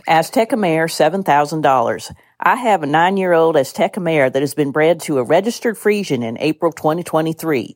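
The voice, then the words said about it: Put-on exaggerated Southern-style accent. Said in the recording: “accent known as Southern Drift, which has also been likened to a speech impediment ... reading it in an accent that's not my own ... an accent that probably doesn't belong to anybody”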